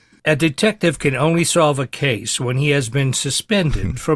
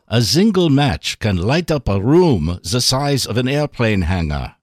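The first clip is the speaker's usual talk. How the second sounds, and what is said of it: Bad fake German accent. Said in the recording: “Bad German accent.”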